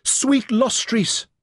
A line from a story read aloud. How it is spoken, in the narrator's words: cried